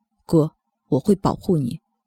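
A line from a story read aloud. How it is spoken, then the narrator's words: Calm, flat. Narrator (Chinese): 修勇淡淡的说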